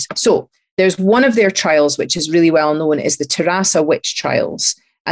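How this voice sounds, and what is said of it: Slight Fife Scottish accent. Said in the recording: “I'm probably saying it with a slightly Fife accent”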